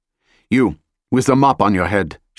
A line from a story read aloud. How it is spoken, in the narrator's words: she barked